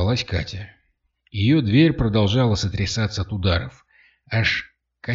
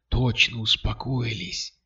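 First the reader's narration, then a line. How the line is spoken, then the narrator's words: Whispered. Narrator (Russian): прошептал Кирилл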